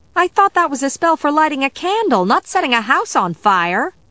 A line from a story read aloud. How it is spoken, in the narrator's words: exclaimed